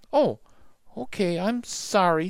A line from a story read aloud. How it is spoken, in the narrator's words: said Annie in a small voice